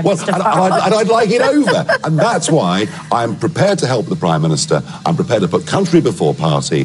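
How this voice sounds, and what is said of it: Nigel Farage's accent. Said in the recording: “Nigel Farage. I could listen to that accent all day.”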